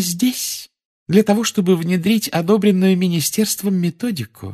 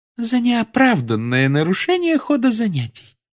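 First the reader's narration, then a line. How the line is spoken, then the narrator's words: Calm. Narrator (Russian): спокойно произнесла профессор Амбридж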